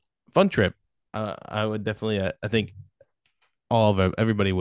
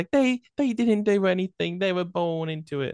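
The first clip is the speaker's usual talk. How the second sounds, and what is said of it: Weak attempt at Irish accent. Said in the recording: “That was not an Irish accent.”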